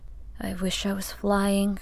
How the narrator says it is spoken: sighed

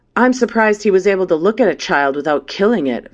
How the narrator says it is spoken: Valavi spat

